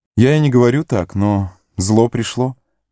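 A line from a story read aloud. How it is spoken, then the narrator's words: Sad. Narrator (Russian): печально сказал Леголас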